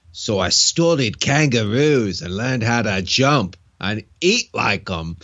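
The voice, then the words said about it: Deliberately bad Australian accent. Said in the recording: “he's got to be Australian ... I'm going to do a really bad accent here”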